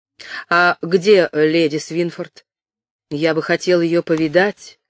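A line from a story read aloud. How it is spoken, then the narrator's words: Plain. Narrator (Russian): сказал он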